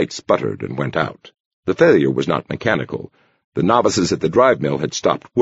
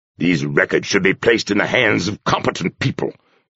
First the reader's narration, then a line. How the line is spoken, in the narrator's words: he said angrily